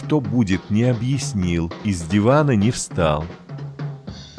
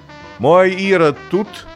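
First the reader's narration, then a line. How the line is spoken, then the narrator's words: Loud question. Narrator (Russian): громко спросила она с порога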